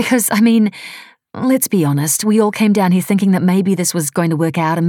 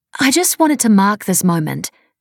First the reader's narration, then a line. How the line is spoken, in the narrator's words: she said